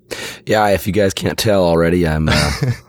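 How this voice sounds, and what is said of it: Hoarse, strained voice. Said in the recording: “You're a little bit under the weather ... losing my voice ... I don't feel nearly as bad as I sound”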